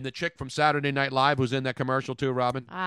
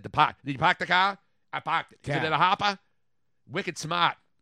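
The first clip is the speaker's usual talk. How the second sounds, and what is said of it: Put-on Boston accent. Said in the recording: “they do the whole Boston accent.”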